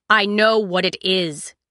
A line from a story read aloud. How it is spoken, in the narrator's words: Sybil snapped